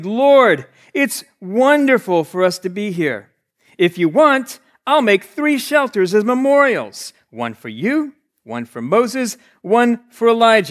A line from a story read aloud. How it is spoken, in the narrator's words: Peter exclaimed